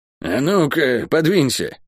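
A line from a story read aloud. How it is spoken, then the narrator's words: Muttering. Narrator (Russian): буркнула подоспевшая проклятая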